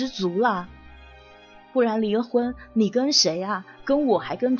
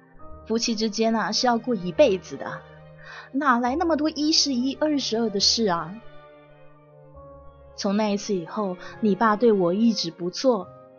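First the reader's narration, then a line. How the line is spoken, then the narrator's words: Heavy sigh, wistful. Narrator (Chinese): 我妈重重的叹了口气，感慨的说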